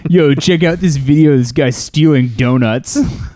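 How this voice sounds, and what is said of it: Put-on dumb-sounding voice. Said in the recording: “my dumb voice”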